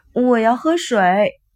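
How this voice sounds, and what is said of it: Childlike, whiny coaxing voice. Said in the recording (Chinese): “用孩子般撒娇的声音说”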